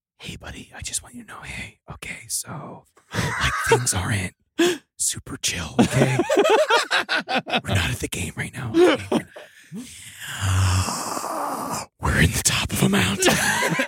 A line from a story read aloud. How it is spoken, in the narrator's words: someone whispered into his ear